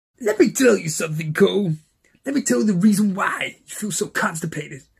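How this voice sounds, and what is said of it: Imitates another person's voice. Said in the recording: “do an impression of Booker T”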